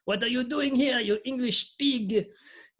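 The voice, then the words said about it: Put-on French accent. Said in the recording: “John Cleese's like French accent”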